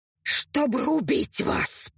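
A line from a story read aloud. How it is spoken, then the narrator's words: Hiss. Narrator (Russian): Прошипела Инха, и ее губы растянулись в неестественно широкой улыбке до ушей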